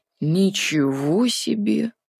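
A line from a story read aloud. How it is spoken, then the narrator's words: Drawling aloud. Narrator (Russian): протянул Артур вслух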